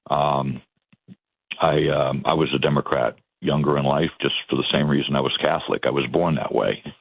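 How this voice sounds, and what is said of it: Boston South Shore accent. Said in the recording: “My accent sometimes comes out, but I'm originally from Boston and the South Shore ... I guess the Kennedy accent is what people call it”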